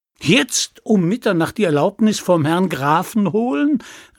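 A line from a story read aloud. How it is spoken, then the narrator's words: Young man calling out. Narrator (German): rief der junge Mann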